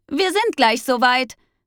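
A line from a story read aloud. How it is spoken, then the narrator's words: Great-aunt calling out. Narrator (German): rief die Großtante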